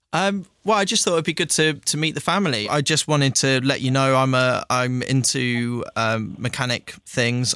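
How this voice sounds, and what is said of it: Posh southern English accent. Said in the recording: “Why have you not got a northern accent? ... a posh southern accent”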